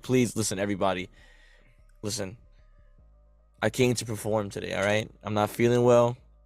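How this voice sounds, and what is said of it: Hoarse, cracking voice. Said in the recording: “I am hoarse ... excuse the voice crack ... My voice is hoarse ... Even though it's hoarse.”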